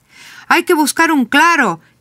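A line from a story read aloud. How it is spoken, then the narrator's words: Shouted. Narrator (Spanish): le grita Sabino a Manolo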